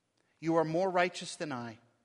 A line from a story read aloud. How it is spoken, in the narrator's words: he said